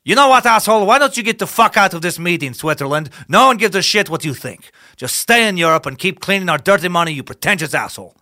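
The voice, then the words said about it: Questionable put-on Swiss accent. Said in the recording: “I'm not sure that was a Swiss accent, but we're going to go with it for today ... I'm not sure what either one of those accents were”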